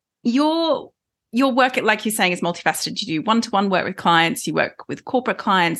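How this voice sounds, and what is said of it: Australian accent. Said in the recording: “I'm Australian. And so my accent might get stronger as the episode goes on ... you can enjoy my lovely accent”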